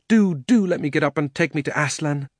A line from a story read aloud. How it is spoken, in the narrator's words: begged Diggory